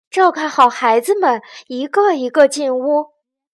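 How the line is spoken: Loud shout. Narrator (Chinese): 卡梅拉大喊道

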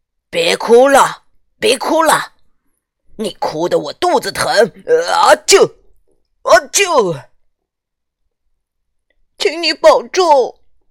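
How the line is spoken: Loud. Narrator (Chinese): 剧团经理对皮诺丘大声说

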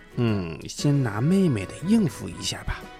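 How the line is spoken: Quiet muttering. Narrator (Chinese): 机灵的凯文…他小声嘀咕着

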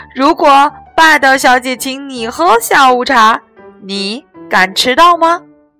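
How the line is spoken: Loud group answer. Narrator (Chinese): 他们一起大声回答

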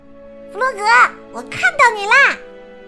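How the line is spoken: Shouting. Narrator (Chinese): 他叫道

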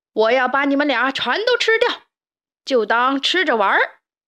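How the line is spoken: Monster roaring. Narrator (Chinese): 怪兽咆哮道

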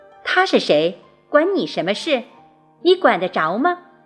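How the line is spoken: Sharp, stern. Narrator (Chinese): 叶圆圆厉声地说

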